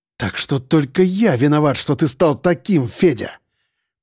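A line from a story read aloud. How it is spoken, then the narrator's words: Through gritted teeth, determined. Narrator (Russian): Процедил сквозь зубы Сальников в полной решимости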